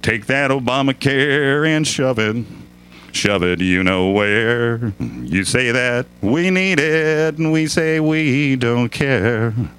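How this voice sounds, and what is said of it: Put-on country singing voice. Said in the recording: “in my country voice”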